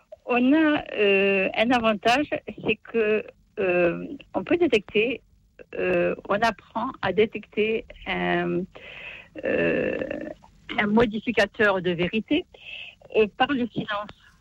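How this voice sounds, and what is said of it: Southern French regional accent. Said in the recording (French): “Vous avez un joli accent à Montauban.”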